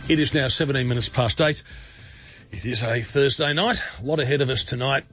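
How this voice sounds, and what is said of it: Congested voice from a head cold. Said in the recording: “my voice is getting better. I'm recovering from whatever it is. I know this is a heavy head cold.”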